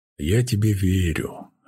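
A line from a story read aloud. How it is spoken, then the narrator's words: Hoarse husband's reply. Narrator (Russian): хрипло отозвался муж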